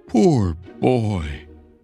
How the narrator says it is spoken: cried again

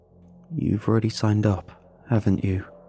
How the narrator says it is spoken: I asked him

